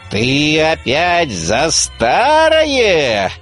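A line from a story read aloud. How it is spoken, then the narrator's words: Menacing sorcerer interrupting. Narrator (Russian): грозно прервал колдун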